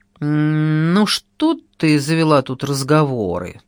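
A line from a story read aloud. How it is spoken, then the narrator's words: Displeased grumbling. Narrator (Russian): недовольно заворчал Володька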